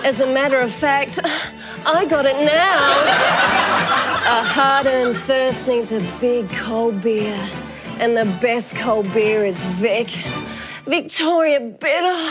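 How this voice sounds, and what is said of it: Sexy advert-style voice. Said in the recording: “I love your sexy voice.”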